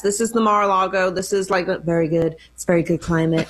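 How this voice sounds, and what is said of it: Imitates another person's voice. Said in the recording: “are you working on a Trump impersonation? ... That was pretty good. ... It was not very good”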